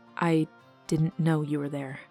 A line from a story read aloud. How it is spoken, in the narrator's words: she said quietly to Vivin